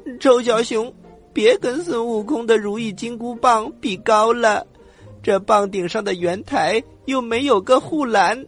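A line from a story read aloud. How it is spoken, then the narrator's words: Crying while speaking. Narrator (Chinese): 丫丫站在金箍棒的顶上，一边哭一边说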